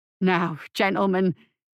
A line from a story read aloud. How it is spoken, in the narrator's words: stammered Franklin